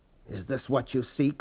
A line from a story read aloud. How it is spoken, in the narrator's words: Paul whispered